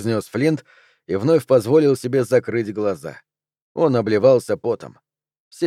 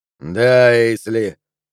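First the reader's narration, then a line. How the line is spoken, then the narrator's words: Weary. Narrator (Russian): устало сказал Флинт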